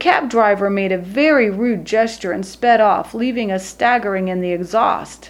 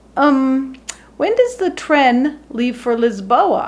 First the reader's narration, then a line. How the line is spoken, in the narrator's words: I asked